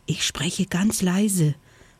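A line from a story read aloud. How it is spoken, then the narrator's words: Whispering. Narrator (German): flüsterte Vanille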